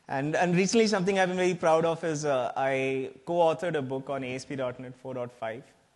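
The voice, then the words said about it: Slight Indian English accent. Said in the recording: “I do have a slightly foreign accent. I'm from India”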